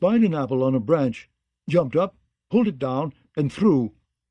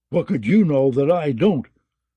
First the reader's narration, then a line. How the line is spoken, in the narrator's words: grumbled Mollander